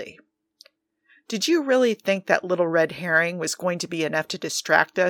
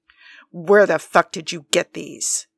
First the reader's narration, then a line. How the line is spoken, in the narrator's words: Steve growled